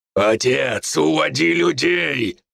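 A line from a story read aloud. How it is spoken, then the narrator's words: Growl. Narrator (Russian): прорычал я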